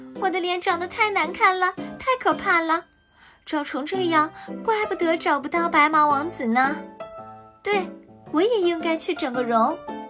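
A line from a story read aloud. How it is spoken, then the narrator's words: Loud shout. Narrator (Chinese): 大叫道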